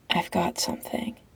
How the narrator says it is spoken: Patrick whispers back

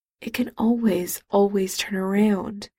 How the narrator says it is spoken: Charles whispered

